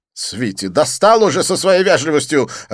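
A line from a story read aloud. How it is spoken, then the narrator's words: Snapping, irritated. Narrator (Russian): огрызнулся Дидье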